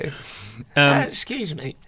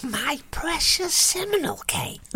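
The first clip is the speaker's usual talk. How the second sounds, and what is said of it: Gollum-style character voice impression. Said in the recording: “Oh, that's Gollum. ... It's quite a good impression”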